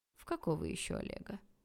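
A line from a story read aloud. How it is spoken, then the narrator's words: Smooth insinuating question. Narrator (Russian): вкрадчиво поинтересовался папа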